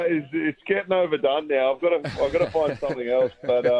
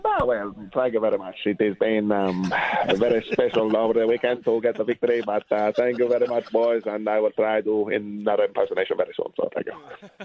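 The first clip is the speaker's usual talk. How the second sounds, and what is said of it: Imitates another person's voice. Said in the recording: “you're very good on an impersonation. Your Rafa Nadal is absolutely fantastic ... just a bit of Rafa”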